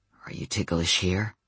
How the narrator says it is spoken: he murmured

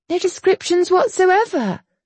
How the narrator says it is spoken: Penny sighed

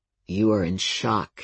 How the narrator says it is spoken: he said grimly

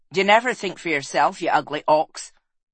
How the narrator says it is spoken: snapped Egwene

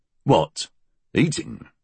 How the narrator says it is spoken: Shaw grunted

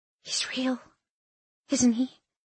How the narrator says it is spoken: She whispered

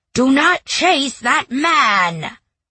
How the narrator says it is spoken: Gorlok's bellow

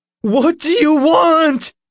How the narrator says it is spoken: Nick shouted, his voice quivering

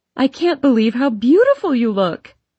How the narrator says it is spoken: squeals

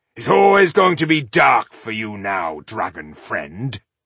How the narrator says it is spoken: growled

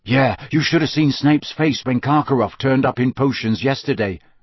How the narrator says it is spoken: said Harry quickly

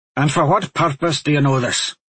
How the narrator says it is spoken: Raybert asked, his tone brusque

